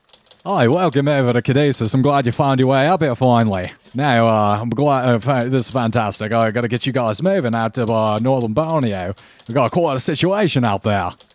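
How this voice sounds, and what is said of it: Character voice with an accent. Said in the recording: “hear the familiar accent of uh, Quentin Shapiro come up”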